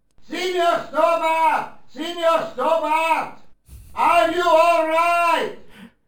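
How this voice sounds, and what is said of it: Shouting. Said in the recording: “stop shouting.”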